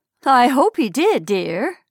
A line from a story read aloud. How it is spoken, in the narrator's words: said, again with a laugh, but rather bitter